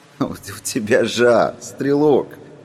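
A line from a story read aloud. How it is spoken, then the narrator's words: Giggling. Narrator (Russian): хихикал человек в черном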